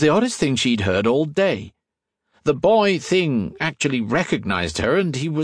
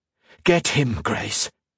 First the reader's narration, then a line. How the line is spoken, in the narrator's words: she hissed